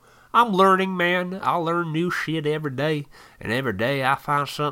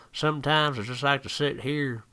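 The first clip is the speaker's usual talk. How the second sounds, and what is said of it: Put-on country accent. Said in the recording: “I don't know why I went into a country accent.”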